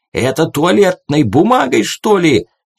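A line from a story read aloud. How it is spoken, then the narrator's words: Nearly shouting, cut off. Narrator (Russian): чуть не закричал полный рейдер и осекся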